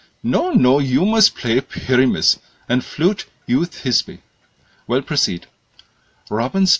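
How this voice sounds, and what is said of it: Usual voice. Nothing is said of it.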